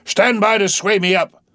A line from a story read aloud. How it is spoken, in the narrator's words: cried Ahab